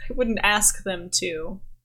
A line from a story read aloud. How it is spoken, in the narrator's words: laughs and he's like